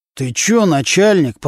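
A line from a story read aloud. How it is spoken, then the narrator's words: Through gritted teeth. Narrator (Russian): процедил сквозь зубы Нечипаренко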